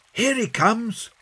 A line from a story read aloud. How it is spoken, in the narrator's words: shouted John